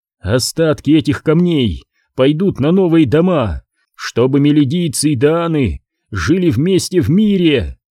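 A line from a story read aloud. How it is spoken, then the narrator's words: Shouted. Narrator (Russian): крикнул он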